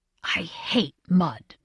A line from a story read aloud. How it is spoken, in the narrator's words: he whispered